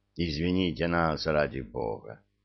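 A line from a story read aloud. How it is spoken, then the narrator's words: Muttering. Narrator (Russian): пробормотал майор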